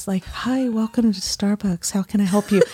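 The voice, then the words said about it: Soft sultry sexy voice. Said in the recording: “I started having to talk like this ... my sexy voice ... Sounds like you're romancing the people”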